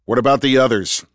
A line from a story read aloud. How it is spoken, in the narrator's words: Andrew shouted over the noise of the helicopter